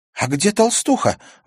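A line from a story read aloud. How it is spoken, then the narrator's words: Sudden exclamation. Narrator (Russian): воскликнула вдруг Серафима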